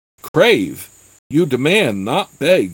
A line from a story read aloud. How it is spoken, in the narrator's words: sputtered Dothmar